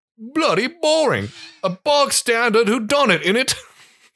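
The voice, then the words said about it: Attempted British accent. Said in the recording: “I gotta try and go British accent.”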